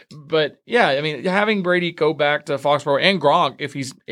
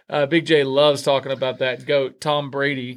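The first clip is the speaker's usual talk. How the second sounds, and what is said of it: Sarcastic tone. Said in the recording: “That's sarcasm if you guys don't hear it in his voice. It's total sarcasm.”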